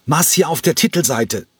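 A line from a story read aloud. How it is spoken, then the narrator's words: Shouted. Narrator (German): schrie er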